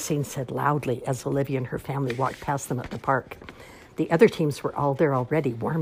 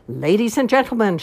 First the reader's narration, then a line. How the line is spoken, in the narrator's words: she shouted through a megaphone